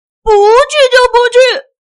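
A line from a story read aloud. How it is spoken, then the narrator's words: Angry shout. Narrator (Chinese): 生气王子大叫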